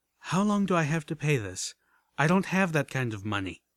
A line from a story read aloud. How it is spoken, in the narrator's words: With a sigh, I asked